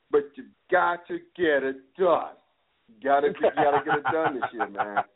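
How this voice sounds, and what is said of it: Imitates another person's voice. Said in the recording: “not to sound like Stephen A. Smith ... You like that impression”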